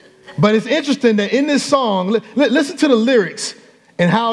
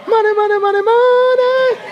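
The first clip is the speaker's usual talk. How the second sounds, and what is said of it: Sung in a weak falsetto. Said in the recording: “My falsetto ain't all that good”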